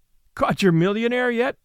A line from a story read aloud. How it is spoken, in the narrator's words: asked Lou with her teasing laugh